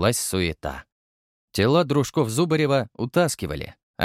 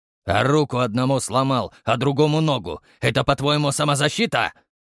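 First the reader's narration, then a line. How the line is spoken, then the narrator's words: Growling. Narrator (Russian): рыкнул Самсон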